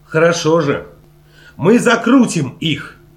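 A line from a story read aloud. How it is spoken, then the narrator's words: Exclaimed. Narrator (Russian): воскликнул Чарли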